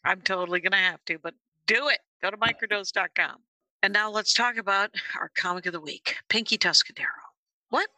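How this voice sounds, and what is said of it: Hushed voice with vocal fry. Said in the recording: “your sexy, hushed voice ... I have a little bit of vocal fry”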